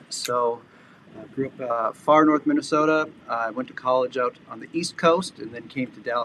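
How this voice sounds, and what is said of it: Minnesota accent. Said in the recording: “I'm originally from Minnesota, which explains this accent.”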